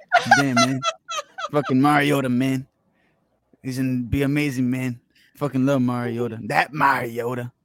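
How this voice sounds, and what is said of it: Imitates another person's voice. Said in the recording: “your John Gruden impression”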